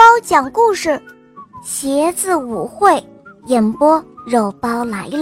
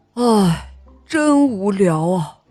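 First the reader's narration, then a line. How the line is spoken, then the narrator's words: Sighing. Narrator (Chinese): 床前的大黑皮鞋叹了一口气，他说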